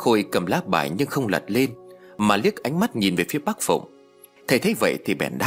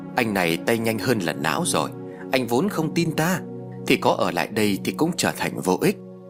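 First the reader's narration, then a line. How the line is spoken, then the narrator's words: Smirking speech. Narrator (Vietnamese): Thầy khẽ nhếch miệng cười rồi nói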